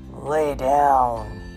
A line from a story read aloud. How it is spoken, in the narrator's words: growled